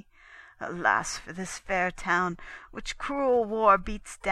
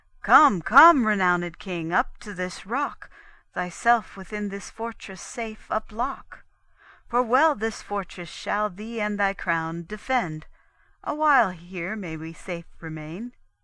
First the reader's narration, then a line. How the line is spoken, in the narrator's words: the Soldan thus far off exclaimed